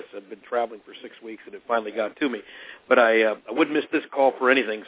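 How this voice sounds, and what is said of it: Hoarse, scratchy voice. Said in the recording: “my voice is a little different this month. I'm just recovering from a bout of laryngitis ... put up with the scratchiness in my voice”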